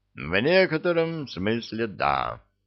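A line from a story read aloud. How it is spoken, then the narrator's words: Silky, suppressed excitement. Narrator (Russian): ответил Вулф вкрадчивым тоном, за которым скрывалось возбуждение охотника, выследившего дичь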